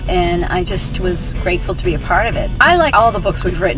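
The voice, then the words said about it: Boston accent. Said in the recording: “they can't tell from my accent, but probably from yours. Yeah, we're from Boston.”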